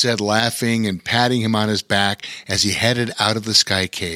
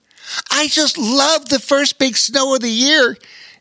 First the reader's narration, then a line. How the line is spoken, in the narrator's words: exclaimed the young otter